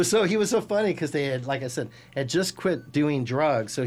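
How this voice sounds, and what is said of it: Usual voice. Nothing is said of it.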